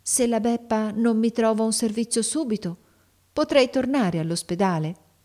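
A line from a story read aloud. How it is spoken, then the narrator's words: Quiet speech. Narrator (Italian): disse piano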